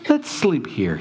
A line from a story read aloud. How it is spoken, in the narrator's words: he sighed